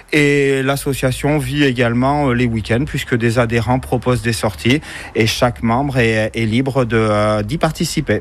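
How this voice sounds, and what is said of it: Cantal regional French accent. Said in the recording (French): “vous avez un bel accent qui nous vient. ... Du Cantal.”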